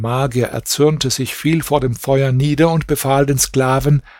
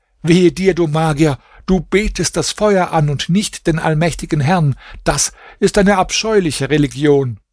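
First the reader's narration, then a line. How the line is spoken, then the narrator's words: Shout. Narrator (German): Hassan schrie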